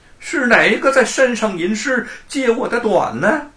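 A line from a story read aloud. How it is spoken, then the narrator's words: Loud shout from below. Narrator (Chinese): 大圣在山根下高叫道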